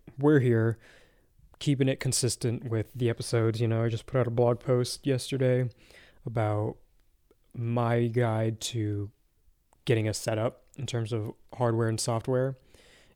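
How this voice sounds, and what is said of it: Tired, worn-out voice. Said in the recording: “I'm a little tired. I'm sure you can probably hear it in my voice. My voice is feeling a little bit shot”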